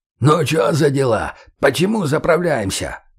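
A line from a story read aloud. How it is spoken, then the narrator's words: Distant hoarse voice. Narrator (Russian): Прохрипело метров за 20 от нас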